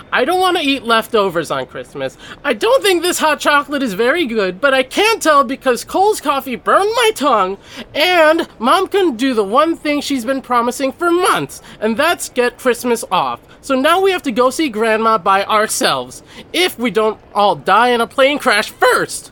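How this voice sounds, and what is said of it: Angry yelling. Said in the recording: “stop yelling”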